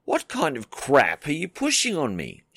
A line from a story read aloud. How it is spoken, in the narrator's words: snapped